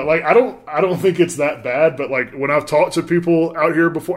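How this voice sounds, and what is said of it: Southern American accent. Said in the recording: “Do I have a Southern accent? ... Oh, of course.”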